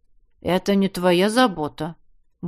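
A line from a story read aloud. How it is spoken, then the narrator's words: Grumbling. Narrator (Russian): Буркнул я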